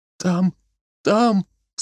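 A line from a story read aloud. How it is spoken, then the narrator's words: Sobbing. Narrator (Russian): всхлипывала Марийка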